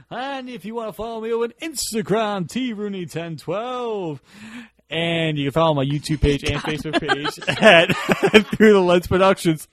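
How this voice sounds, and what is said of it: Announcer-style radio voice. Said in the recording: “Doing my radio voice.”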